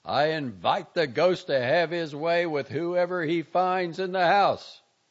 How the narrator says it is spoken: he yelled

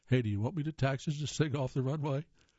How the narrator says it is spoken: Morgan chuckles

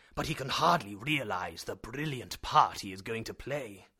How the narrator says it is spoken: exclaimed my uncle

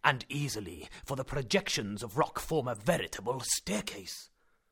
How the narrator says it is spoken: he exclaimed

